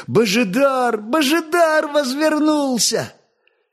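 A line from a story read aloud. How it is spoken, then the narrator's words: Joyful yelling. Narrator (Russian): продолжая радостно вопить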